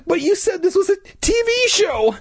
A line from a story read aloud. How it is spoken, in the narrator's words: I stammered